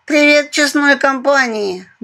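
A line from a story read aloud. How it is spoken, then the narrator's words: Loud yawning. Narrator (Russian): громко зевнула она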